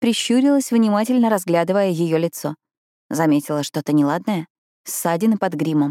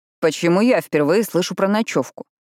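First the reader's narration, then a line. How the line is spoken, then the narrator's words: Stepfather's stern question. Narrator (Russian): строго поинтересовался отчим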